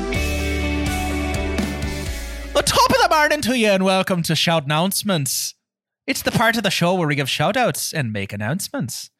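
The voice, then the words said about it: Put-on Irish accent. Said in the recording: “I can only do short bursts of Irish ... charge up my Irish accent”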